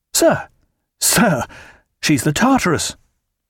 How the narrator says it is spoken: all at once he cried

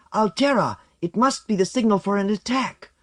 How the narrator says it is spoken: One of the guards came running up to Agathe, shouting

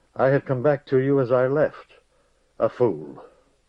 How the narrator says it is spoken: the young man said, his voice harsh and thickened

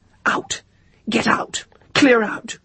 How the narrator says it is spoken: whispering under her breath

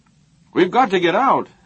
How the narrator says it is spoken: Haber shouted over his own voice

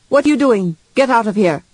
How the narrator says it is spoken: shouted, first in Chinese, then in common

